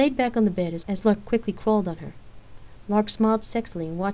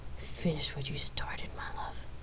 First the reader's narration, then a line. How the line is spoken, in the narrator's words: Rain whispered through her kiss